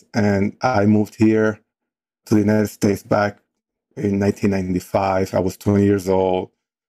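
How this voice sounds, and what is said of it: Dominican Spanish accent in English. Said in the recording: “I actually grew up in the Dominican Republic, hence my accent.”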